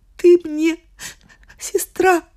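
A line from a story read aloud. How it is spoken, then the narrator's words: Sobbing. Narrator (Russian): всхлипывала Вероника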